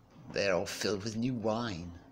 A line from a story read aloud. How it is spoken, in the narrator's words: others sneered and said